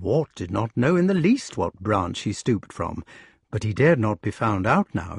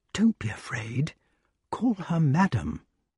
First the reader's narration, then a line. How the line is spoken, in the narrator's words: Balan whispered quite kindly in his ear